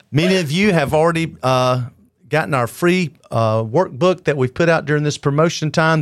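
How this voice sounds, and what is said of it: Loud radio announcer voice. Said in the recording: “your radio announcer voice ... he's loud”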